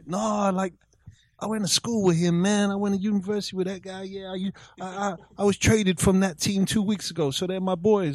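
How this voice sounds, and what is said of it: Put-on white American guy accent. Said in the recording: “Why do you look like a white guy doing that accent? ... That's the weirdest white guy accent I've ever seen. ... That was my white boy Rick American accent.”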